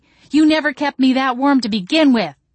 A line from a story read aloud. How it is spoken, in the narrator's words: I shouted back